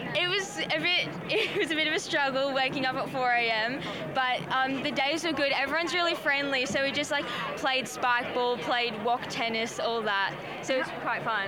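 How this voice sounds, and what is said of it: Australian accent. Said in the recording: “I'm detecting an Australian accent.”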